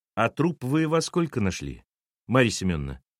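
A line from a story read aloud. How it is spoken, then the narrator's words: Gentle question. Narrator (Russian): нежно спросил Сергей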